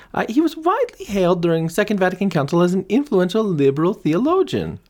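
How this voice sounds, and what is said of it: Terrible campy put-on European accent. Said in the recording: “accent went all over Europe ... a little camp too ... a terrible and campy accent”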